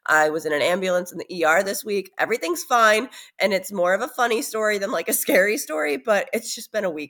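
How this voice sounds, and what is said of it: Sick voice from a cold. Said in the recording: “You can obviously tell I'm a little bit under the weather. I have a cold.”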